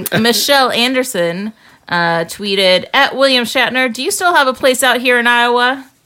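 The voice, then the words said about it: Put-on Texas accent. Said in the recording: “I just threw in my Texas ... accent.”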